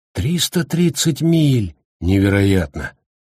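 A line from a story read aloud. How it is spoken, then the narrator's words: Gloomy. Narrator (Russian): мрачно проговорил Харкнесс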